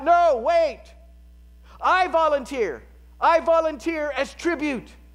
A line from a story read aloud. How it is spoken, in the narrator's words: Her older sister, Katniss, shouts out